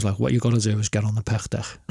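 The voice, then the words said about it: Scouse accent. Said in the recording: “Scouse accent? ... My native accent ... the most perfect thing to say in this guy's accent”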